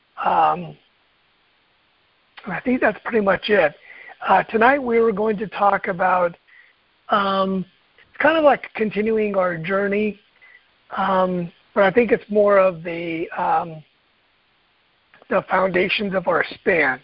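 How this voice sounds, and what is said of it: Hoarse voice. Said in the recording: “my voice is a little hoarse tonight”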